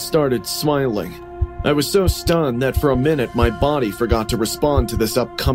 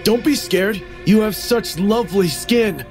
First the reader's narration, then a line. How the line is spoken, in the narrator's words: yelled